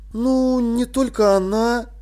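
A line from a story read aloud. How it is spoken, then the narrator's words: Drawling. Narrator (Russian): протянул Тепик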